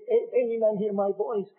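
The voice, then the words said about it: Plaintive pleading voice. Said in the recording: “speaking in a plaintive voice”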